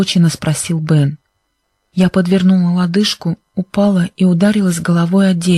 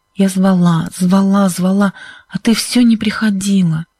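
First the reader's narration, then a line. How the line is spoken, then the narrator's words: Hoarse voice. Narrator (Russian): сказала Сьюзен хриплым голосом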